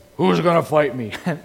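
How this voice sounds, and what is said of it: Imitated voice of a giant. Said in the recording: “That is a perfect imitation of Goliath”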